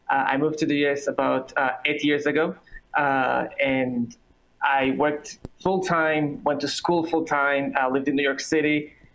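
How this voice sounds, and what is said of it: Israeli accent. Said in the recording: “I apologize for my accent. I'm originally from Israel, as you can hear.”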